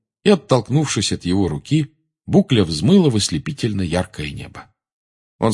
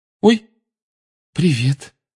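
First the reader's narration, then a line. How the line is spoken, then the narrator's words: Frightened reply. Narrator (Russian): испуганно отозвалась она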